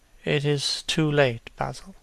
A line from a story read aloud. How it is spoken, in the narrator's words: he murmured